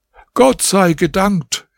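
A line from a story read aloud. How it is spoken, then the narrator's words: Exclaiming. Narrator (German): rief er aus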